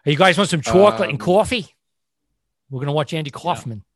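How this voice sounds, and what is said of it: Exaggerated Long Island accent. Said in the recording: “Southern accent?... I was doing the exaggerated... Long... Long Island”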